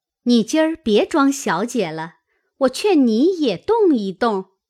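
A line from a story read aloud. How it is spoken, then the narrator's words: Laughing. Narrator (Chinese): 麝月笑道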